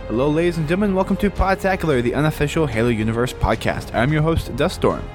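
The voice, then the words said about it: Sick, strained voice. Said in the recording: “you may tell from my voice I'm a little under the weather today ... I'm sick ... Just don't know how long my voice is going to last out”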